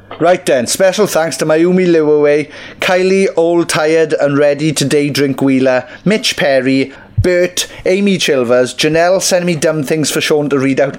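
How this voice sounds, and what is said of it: Imitates another person's voice. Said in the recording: “do an impression of me ... get into the character ... just do a cough and then you'll just start talking”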